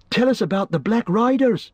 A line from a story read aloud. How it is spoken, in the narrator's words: interrupted Pippin eagerly